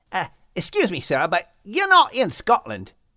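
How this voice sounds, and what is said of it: Character voice with English accent. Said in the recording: “In England, of course. Can't you tell by me lovely accent?”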